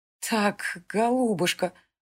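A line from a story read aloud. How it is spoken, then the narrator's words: Trembling, hoarse, near-wheezing. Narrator (Russian): Дрожащим голосом выговорила Селена хрипловатость на последних словах, чуть не перешедшую в сип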